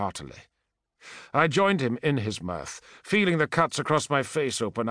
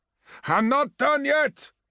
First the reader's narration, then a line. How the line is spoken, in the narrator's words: I shouted